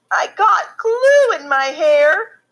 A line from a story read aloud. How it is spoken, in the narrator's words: she sobbed